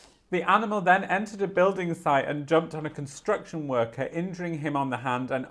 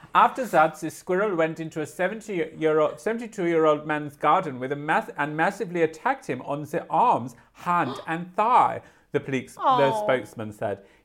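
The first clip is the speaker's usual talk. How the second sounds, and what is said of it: Put-on German accent. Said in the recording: “I need to read this in a German accent”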